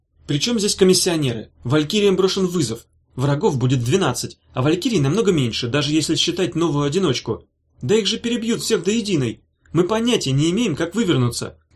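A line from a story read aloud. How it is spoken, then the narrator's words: Thin, fussy, scolding shout. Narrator (Russian): крикнул он тонким голоском, которым ругаются вежливые и одновременно занудливые люди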